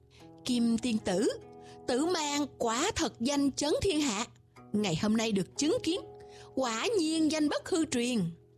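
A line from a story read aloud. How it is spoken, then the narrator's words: Smiling. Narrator (Vietnamese): Tần Vô Viêm mỉm cười nói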